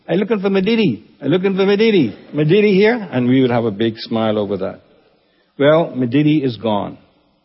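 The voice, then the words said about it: Imitated Eleuthera island accent. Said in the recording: “went into that accent over there”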